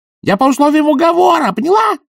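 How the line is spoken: Yell. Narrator (Russian): заорал он

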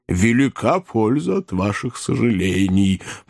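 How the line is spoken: Grumbling. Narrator (Russian): проворчал толстый джентльмен

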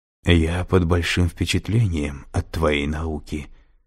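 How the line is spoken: Whisper. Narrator (Russian): прошептал похититель

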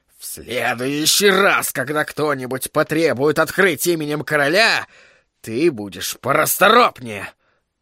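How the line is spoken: Growled. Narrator (Russian): прорычал Флег

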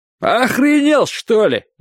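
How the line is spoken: Angry snap. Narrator (Russian): взъелся Карвер

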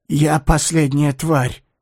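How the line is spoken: Breathless exhale, parched mouth. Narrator (Russian): выдохнул он запекшимся ртом

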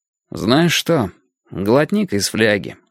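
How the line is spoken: Calm. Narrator (Russian): сказал я спокойно

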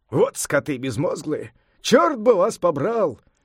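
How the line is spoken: Exasperated exclamation. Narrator (Russian): не вытерпев, воскликнул Сунь-Укун

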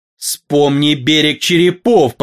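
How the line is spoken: Growling. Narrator (Russian): прорычал он

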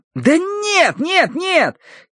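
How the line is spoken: Shouting. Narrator (Russian): кричал он

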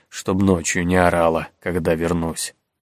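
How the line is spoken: Muttered. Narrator (Russian): пробормотал Генрих

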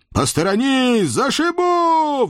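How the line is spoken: Crazed roar. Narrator (Russian): взревел я, изо всех сил изображая из себя полного психа в эпилептическом припадке

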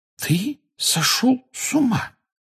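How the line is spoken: Hoarse, strained voice. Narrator (Russian): севшим голосом сказала Гермиона

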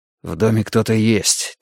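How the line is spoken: Quiet. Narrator (Russian): тихо сказал он

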